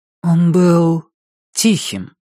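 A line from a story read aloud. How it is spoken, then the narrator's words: Uncertain. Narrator (Russian): ответила она неуверенно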